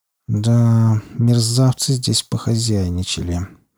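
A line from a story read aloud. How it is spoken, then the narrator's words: Muttered through teeth. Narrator (Russian): процедил Малдер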